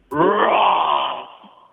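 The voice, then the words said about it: Imitates a tiger's roar. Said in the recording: “your best tiger impersonation ... you have to bring on the big cat”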